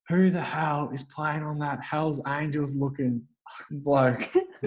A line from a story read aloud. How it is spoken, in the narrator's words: Sam Mitchell yelling out to the back line